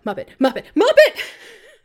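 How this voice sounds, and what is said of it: Urgent shouting. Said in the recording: “I'm shouting with increasing urgency”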